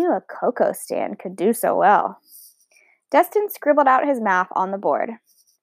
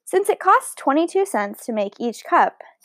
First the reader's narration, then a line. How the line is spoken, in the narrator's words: Dustin said